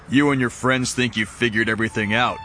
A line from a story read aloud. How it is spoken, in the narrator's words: Benson said